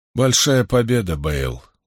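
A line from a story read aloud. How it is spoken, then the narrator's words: Tired reply. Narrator (Russian): устало ответил Ранд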